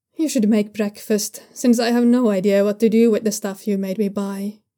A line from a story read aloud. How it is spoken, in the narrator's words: he says